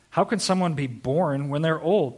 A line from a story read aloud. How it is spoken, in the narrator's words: Nicodemus asked